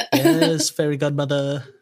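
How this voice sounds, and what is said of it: Good impression of a movie character. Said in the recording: “That's a pretty good impression”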